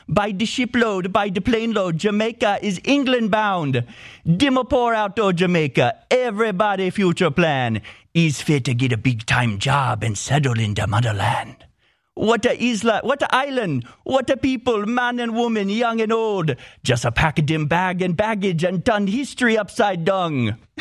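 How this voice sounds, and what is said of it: Jamaican accent. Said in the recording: “Should I do the whole show in a Jamaican accent?”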